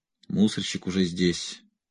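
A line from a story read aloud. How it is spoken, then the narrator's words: Muttered. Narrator (Russian): пробормотал Магнус Рудольф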